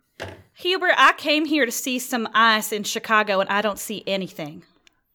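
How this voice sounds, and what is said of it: Grumbling, growling southern accent. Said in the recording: “Grumbling, growling in a southern accent”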